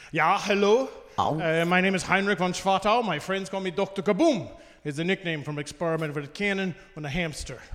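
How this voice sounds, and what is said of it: Thick German accent character voice. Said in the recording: “He's German... a thick German accent”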